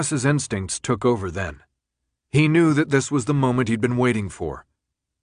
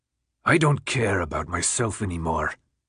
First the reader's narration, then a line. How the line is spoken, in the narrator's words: Newt responded in a low growl